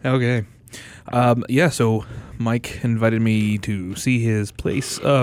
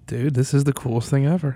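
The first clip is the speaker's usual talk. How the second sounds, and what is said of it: Whispering, holding back. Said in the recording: “whisper. I know you're whispering, and I can see you holding back. You don't have to whisper.”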